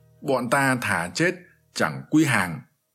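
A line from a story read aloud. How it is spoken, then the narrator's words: Loud shout in unison. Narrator (Vietnamese): Ngô Cảnh Hoàng và Mai Thế Pháp đồng hét lớn rằng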